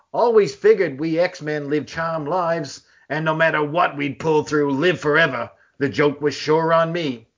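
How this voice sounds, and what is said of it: Put-on accent, comic-book character voice. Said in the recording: “That's my worst Kitty Pryde. ... That was a great Kitty Pryde. ... I should have read that it was Kitty Pryde before I went into my accent there. ... She's the beefier Kitty Pryde.”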